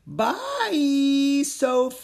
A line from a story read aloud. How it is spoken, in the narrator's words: he yelled as he tumbled into the forest